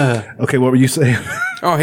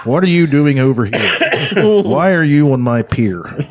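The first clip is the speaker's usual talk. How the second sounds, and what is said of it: Michael Shannon impression. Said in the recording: “That's not a bad impression, especially since I've never done an impression of him before.”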